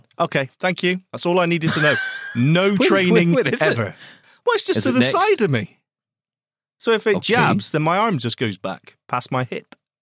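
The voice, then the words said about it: Bristol English accent. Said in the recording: “hooray for Bristol. Now, that's where I get my accent from.”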